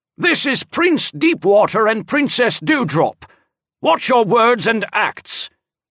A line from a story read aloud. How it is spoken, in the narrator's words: Guardian Shaded Forest shouted at the officer